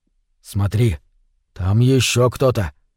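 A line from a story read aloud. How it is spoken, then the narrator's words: Whisper in the ear. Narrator (Russian): шепнул Вовка мне в ухо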